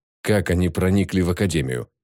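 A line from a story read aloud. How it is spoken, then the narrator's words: Cold question. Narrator (Russian): холодно спросила Ким Ён Джу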